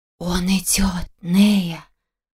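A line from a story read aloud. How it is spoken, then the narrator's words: Quiet whisper. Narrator (Russian): тихий шепот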